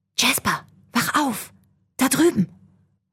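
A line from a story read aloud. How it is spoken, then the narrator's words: Whisper. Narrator (German): Jacob flüsterte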